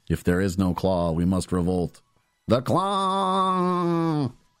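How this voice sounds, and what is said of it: Imitated alien voice. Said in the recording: “My best alien impression.”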